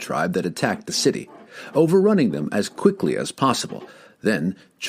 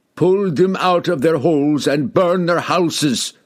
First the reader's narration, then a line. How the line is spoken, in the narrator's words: the barbarian king roared